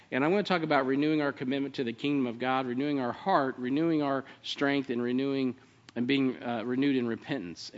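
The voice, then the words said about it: Speaking very fast. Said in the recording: “I said it fast.”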